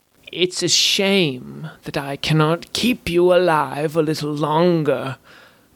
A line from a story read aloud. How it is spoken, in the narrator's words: croaked the wan spellweaver